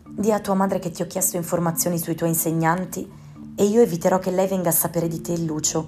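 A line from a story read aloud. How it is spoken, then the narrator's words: Whispered. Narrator (Italian): bisbigliò Camilla, avvicinandosi con nonchalance all'orecchio di Luna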